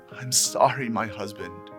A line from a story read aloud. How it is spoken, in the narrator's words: she pleaded